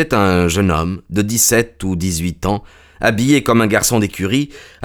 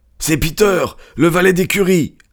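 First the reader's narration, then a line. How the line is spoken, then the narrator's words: Exclamation. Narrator (French): s'écria l'étranger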